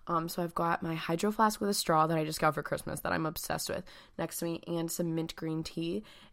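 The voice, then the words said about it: Raspy, slightly hoarse voice. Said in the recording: “my voice is a little raspy right now ... I got sick over the weekend”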